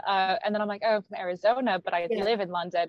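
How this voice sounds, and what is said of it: American accent with picked-up British tones. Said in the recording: “you've picked up the accent ... everyone in the UK can pinpoint I'm American”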